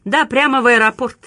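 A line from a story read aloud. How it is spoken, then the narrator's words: Loud reply. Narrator (Russian): также громко ответил Ребус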